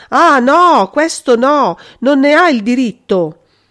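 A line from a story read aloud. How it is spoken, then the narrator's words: Terrified shouting. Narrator (Italian): Maria Giovanna gridava con voce terrorizzata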